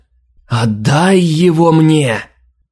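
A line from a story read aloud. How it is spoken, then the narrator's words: Menacing howl. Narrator (Russian): угрожающе взвыла Алина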